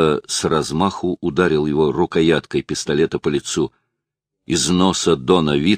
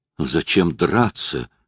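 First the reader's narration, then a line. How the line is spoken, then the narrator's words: Muttering. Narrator (Russian): забормотал он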